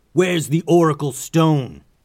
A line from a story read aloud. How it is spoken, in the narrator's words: the captain yelled